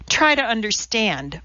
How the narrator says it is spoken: Borivites cried as she slammed the journal down on the desk

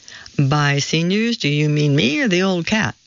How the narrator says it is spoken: Bill laughed off

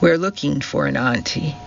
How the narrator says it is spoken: said the policeman

